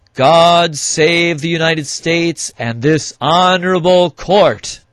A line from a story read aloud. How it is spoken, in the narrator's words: The marshal yelled